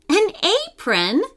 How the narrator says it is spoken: Lila exclaimed

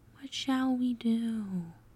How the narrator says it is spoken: As delicate as a feather, Twinkle whispered

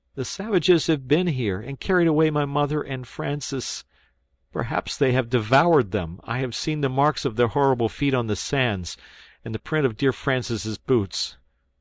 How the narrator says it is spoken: he sobbed out

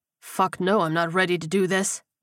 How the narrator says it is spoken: he grunted

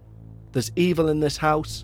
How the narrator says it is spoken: shouted the priest

